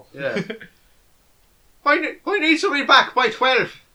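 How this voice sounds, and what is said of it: Chris O'Neill impression, Irish voice. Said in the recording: “played by a fat Irishman ... Played by Chris O'Neill ... Is that your impression of Chris O'Neill?”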